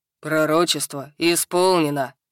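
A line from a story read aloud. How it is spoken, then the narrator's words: Deep bass voice. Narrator (Russian): пробасил Хак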